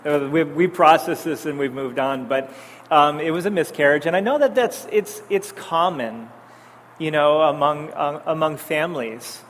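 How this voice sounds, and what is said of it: Teary, emotional voice. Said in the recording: “I don't know why I'm getting all teary.”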